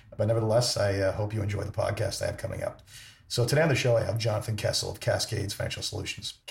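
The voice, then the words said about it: Worn, sick-sounding voice. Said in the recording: “My voice is the worst for wear after a couple of days of being sick”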